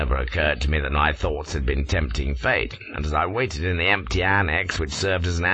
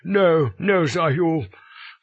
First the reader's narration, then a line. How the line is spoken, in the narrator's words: cries Harding